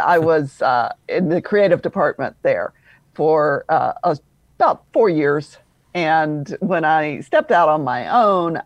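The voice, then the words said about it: Slight Southern drawl. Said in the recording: “I have a little bit of a Southern drawl ... I'm originally from Louisville, Kentucky.”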